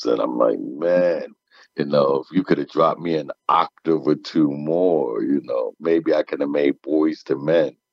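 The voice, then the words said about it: Very deep male voice. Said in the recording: “did you swallow Barry White? ... as deep as my voice is, I've been blessed to have a deep voice”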